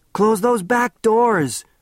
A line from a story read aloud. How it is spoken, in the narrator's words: shouted Bert